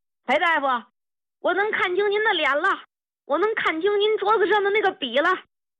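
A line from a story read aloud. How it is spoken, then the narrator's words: Old man's loud shout. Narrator (Chinese): 老兵一进门就大喊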